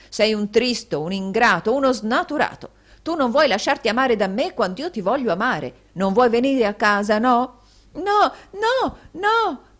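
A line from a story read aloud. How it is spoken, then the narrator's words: Shouted. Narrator (Italian): gridò Smike retrocedendo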